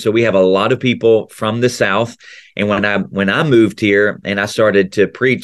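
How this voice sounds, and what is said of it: Mild Tennessee Southern accent. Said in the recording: “i still obviously have a little bit of that tennessee accent ... my Southern accent”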